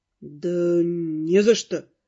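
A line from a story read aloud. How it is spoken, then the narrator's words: Bewildered mutter. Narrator (Russian): растерянно пробормотал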